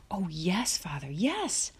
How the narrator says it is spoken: Almanzo almost shouted

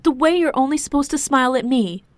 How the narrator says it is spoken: shouted, and angry tears started to stream down her cheeks

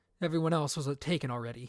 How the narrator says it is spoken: he mumbled

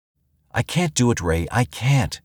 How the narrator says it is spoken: she pleaded

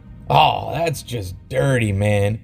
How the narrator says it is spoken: Mikey groaned

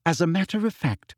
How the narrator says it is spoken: said Hermione sweetly

